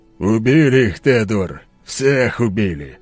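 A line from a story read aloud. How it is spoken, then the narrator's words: Grimacing snort. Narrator (Russian): скривившись, хмыкнул скала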